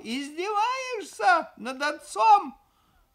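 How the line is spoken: Yelled. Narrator (Russian): заорал

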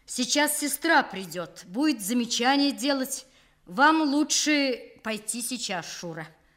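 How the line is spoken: Loud, after angry throat-clearing. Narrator (Russian): Он яростно откашлялся, рассердившись на свой сорвавшийся голос, и громко сказал

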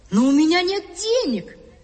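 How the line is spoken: Boy's exclamation. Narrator (Russian): воскликнул мальчик

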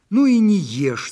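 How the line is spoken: Shouting. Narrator (Russian): закричала Ляфрус Ханум

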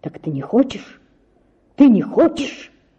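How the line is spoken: Frenzied whisper. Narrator (Russian): шептал он мне в каком-то исступлении

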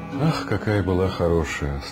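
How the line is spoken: Sad. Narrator (Russian): сказала мамаша, печально

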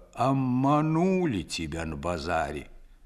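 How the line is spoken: Old man, muffled. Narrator (Russian): Дед вымолвил глухо

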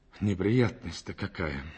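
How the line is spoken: Sighing. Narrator (Russian): вздохнул он

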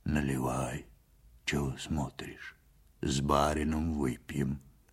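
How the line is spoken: Muffled husky voice. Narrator (Russian): сказал Ваньке глухим, с хрипотцой голосом

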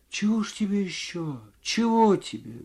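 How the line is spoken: Quiet bewildered woman. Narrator (Russian): говорила женщина тихо и в недоумении

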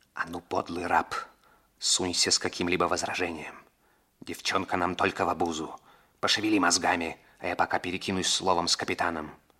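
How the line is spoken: Whispered. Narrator (Russian): Раморни шепнул Двайнингу

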